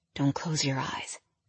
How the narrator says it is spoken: whispered

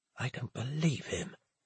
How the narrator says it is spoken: whispered

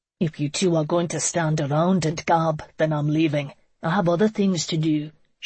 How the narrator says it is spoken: Seamus grumbled

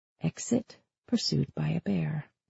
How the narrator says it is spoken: Sam whispered

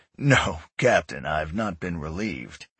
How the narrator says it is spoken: chuckled

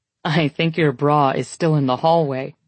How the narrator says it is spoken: he says with a laugh

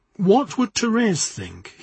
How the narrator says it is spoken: he said

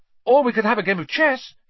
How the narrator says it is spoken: he said hastily

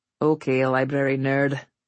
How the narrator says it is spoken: he said with a mock, long-suffering sigh

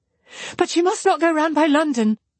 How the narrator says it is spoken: cried Marianne in the same hurried manner

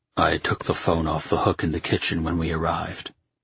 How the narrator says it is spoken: he said quietly

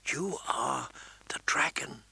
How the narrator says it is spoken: Danny whispered to him

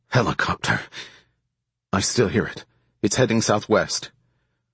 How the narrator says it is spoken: He grunted in pain again, then said

